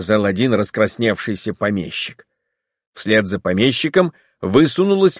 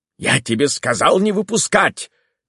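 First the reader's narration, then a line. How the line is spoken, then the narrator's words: Shouting. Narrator (Russian): крикнул он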